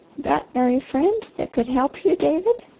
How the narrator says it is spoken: The old lady leaned toward him with a mist in her eyes and a quaver in her voice, and asked softly

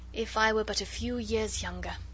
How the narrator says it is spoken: added the old diplomat with a sigh

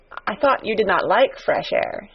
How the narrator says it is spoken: he said

